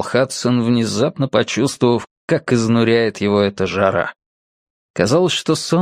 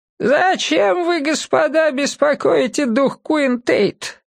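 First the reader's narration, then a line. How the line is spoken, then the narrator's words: Creaky old woman. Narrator (Russian): Проскрипела старуха с трубкой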